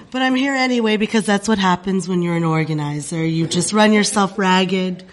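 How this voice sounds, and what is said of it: Congested voice with a cold. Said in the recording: “As you can hear from my voice, I have a cold.”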